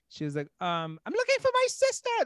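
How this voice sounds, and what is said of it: Imitated London accent. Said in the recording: “This is exactly how she sounded, by the way. This isn't a bad impression. ... This is verbatim. ... That's 100%. authentic London accent.”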